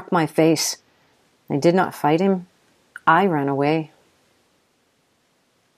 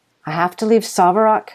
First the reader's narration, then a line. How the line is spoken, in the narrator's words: I blurted